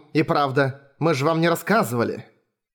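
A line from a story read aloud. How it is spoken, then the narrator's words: Businesslike tone. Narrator (Russian): заговорила она деловым тоном, как и полагается представителю клуба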